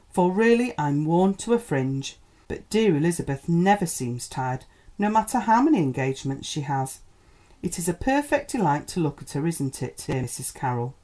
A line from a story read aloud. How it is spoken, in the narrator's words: sighed Miss Tripp